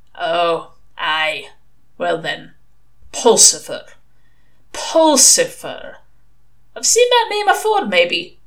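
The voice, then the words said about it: Unplaceable shifting British regional accent. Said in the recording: “Mr. Shadwell's accent was unplaceable. It careered around Britain like a milk race. Here, a mad Welsh drill sergeant. There, a High Kirk elder who'd just seen someone doing something on a Sunday. Somewhere between them, a dour Daleland shepherd or bitter Somerset miser. It didn't matter where the accent went. It didn't get any nicer.”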